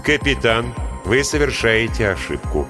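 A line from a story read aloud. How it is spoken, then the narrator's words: Calm voice. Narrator (Russian): сказал Линь тем же спокойным голосом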